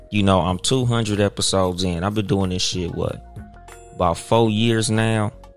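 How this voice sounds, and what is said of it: West Coast Compton accent. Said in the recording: “from Compton, California. So, of course, by my accent ... it's going to be some West Coast shit.”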